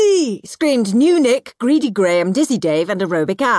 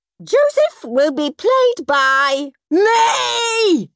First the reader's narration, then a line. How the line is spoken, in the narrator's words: screamed Henry